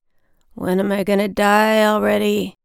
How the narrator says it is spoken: He was moaning

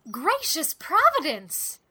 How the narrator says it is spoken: she laughed almost hysterically

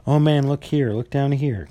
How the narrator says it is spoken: exclaimed the ghost

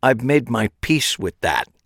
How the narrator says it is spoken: said through gritted teeth

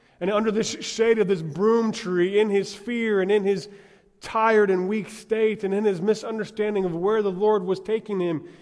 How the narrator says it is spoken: he cried out to the Lord

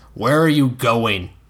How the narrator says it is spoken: Dunk asked in a stern voice

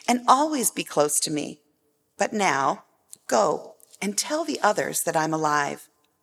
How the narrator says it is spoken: Jesus said gently

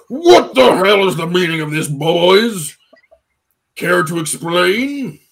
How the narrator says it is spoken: says with a rumbling baritone of testosterone

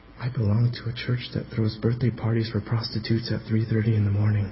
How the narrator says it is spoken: Tony answered him quietly

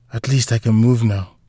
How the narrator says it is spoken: she muttered

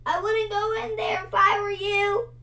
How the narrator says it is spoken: he cried

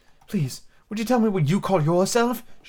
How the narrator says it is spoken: she said timidly

